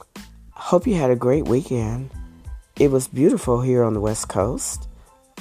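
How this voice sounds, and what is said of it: Hoarse, strained voice. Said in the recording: “as you can tell, my voice is shot ... I don't want to strain my voice any more”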